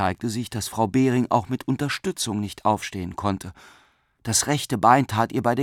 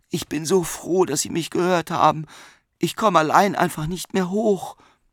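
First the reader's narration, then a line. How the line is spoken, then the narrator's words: Groaning. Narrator (German): stöhnte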